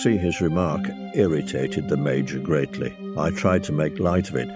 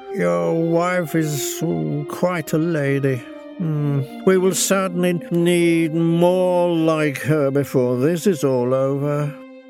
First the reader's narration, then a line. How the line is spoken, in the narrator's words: in a very slurred voice, Ogilvy said